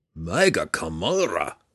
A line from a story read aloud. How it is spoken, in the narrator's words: roared